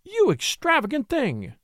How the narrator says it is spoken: she cried

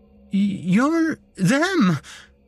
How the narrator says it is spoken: I stammered, my mouth too dry to properly speak

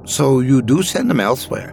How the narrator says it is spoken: Ben said excitedly

